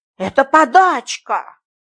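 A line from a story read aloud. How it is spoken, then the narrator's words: Angry. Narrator (Russian): сердито сказал краевед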